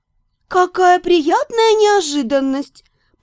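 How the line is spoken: Cooing. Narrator (Russian): проворковала

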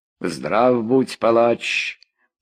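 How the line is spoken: Drawling. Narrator (Russian): протянул карагаш

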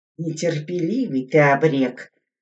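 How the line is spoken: Grumbling. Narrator (Russian): ворчал Мятников

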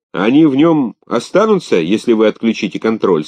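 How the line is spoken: Plain. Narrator (Russian): спросил Дрейк

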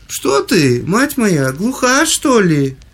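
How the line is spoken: Shouting. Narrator (Russian): закричала графиня

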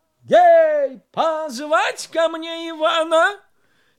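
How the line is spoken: Hurried shout. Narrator (Russian): Царь поспешно закричал

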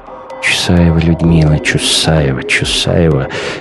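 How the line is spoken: Mother mumbling. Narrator (Russian): бормочет мать

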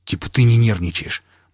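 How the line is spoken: Grumbled. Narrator (Russian): буркнул Пригоршня

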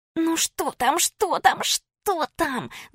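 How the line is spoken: Girls hissing all around. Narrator (Russian): зашипели со всех сторон девчонки

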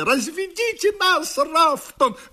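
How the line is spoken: Shrill squeal. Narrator (Russian): взвизгнул он

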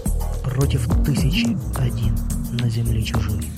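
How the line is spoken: Quiet whisper. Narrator (Russian): негромко прошептал

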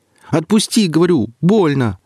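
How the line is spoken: Shout. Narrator (Russian): крикнул Алексей

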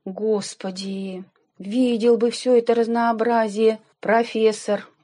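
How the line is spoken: Moan. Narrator (Russian): простонал Степан

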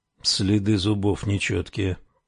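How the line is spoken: Mutter. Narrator (Russian): пробормотал он

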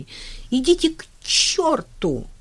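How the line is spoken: Shouting. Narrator (Russian): закричала она

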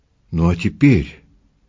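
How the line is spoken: Sad, smiling. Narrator (Russian): грустно улыбнулся

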